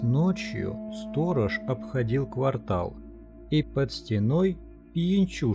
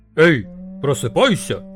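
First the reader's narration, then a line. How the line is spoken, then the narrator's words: Shouting. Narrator (Russian): крикнул он ему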